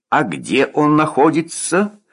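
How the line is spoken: Confused question. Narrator (Russian): растерянно спросил капитан

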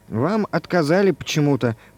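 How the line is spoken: Embarrassed mutter. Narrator (Russian): пробормотала она, пунцовая

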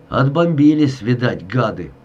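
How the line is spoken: Grumble. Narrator (Russian): буркнул

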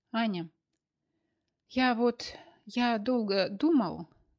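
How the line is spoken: Stammering, embarrassed. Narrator (Russian): краснел, заикался и мялся Борис

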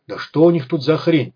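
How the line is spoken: Muttered. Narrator (Russian): пробормотал Малахов

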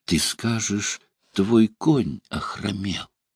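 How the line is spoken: Frenzied incantatory whisper. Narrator (Russian): Потеряв разум и стыд, она шептала ему, как ворожея

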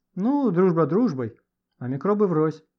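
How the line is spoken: Grumbled. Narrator (Russian): проворчал Леха

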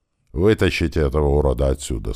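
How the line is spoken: Plain. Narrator (Russian): сказал туман

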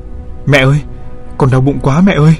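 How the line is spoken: Woman screaming. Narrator (Vietnamese): Cô hét lên

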